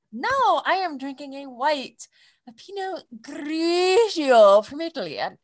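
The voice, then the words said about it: Exaggerated stereotypical Italian accent, rolled R's. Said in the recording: “sound Italian ... borderline offensive ... like a Super Mario stereotypical roll your R's kind of shit ... That's terrible.”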